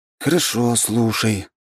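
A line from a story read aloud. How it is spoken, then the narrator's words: Sigh. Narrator (Russian): вздохнул я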